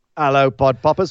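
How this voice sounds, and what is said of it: Put-on British accent. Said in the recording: “I tried to do that in a British accent”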